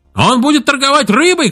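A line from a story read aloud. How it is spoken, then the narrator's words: Shouted from a crowd. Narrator (Russian): крикнули в толпе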